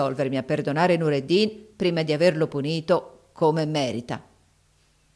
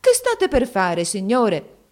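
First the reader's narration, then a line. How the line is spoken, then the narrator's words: Mother exclaiming. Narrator (Italian): La madre di Nureddin esclamò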